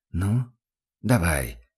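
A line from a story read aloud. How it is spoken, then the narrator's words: Whisper. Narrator (Russian): шепнул Курт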